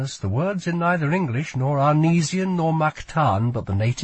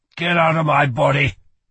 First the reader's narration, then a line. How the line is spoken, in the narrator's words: he growled